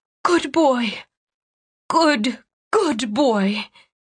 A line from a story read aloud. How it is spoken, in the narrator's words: Sinking to her knees, Cianne rasped